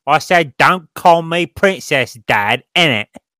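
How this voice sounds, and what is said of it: Put-on East End London accent. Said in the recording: “she would have a British accent, though ... It would have to be fairly trashy ... Oh, so she's from the East End of London.”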